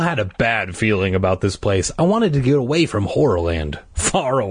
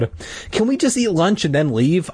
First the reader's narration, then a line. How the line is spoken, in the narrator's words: I asked eagerly